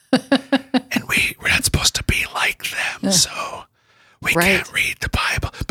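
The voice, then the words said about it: Whispering. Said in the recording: “I'm whispering?”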